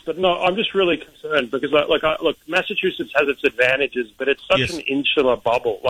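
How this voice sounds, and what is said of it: Australian accent. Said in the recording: “it's not a Southie accent. I'm from Australia”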